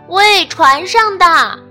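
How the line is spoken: Shouting. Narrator (Chinese): 沃尔特喊道

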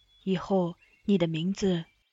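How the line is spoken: Soft murmur. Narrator (Chinese): 他轻声念着，对他道

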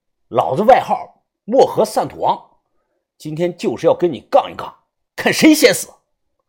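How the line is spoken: Angry. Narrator (Chinese): 怒声的对着他说道

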